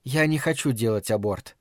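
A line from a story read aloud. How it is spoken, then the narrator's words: Calm remark. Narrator (Russian): спокойно заметила Фрэнни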